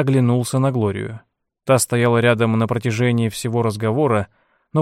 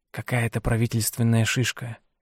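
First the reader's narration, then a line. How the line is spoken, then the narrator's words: Whisper. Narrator (Russian): шепнул он ей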